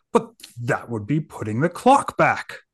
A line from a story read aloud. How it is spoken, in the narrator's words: gasped the governor